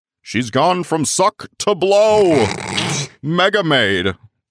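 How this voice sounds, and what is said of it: 1950s cartoon announcer voice. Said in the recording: “I did that in like a 1950s cartoon announcer voice.”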